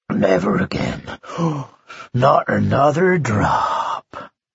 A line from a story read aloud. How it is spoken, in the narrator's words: murmuring to himself